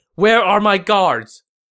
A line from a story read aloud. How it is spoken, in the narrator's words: Panicked, Cao Cao shouted